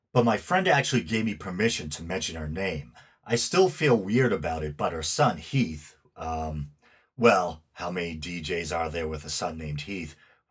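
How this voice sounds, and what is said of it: Northeastern US accent. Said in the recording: “as I'm sure you can tell from my accent, I'm in the US, the Northeast to be exact. I'm doing my best to round off my R's.”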